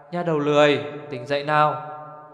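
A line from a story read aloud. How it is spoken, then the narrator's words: Smiling soft call. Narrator (Vietnamese): mỉm cười gọi nhỏ vào tai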